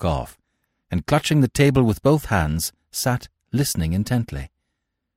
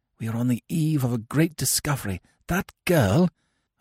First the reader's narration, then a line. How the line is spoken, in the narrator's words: I whispered